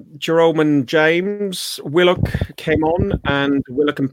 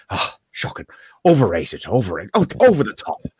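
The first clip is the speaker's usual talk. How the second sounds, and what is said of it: Imitates another person's voice. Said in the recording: “That's my Roy Keane impression.”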